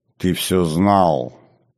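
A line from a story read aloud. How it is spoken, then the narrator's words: Through gritted teeth. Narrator (Russian): цедит сквозь зубы Намит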